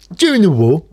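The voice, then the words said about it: Imitates a comedian's voice. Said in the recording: “my impression of Paul Merton”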